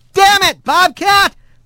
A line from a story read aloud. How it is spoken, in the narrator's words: he yelled